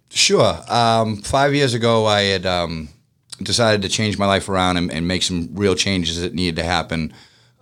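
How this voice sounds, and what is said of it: Boston accent. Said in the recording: “I just love your accent. ... It's the pressure washing guy from Boston.”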